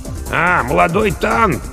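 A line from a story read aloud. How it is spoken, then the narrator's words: Hoarse mutter. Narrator (Russian): хрипло пробормотал Бонно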